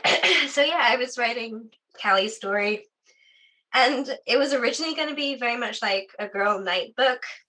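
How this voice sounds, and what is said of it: Strained, fading voice. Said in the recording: “my voice is going. It started going yesterday.”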